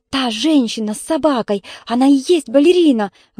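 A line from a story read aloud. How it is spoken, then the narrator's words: Breathless exhale. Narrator (Russian): выдохнула Танюша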